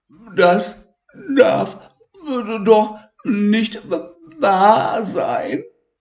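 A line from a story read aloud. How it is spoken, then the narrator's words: Stammered. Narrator (German): stotterte Elmar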